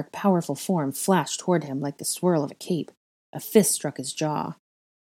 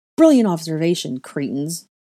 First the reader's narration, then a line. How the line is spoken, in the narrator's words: Draco snapped